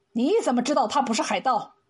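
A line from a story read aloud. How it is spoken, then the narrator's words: Stern, sharp. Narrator (Chinese): 班景宪厉声问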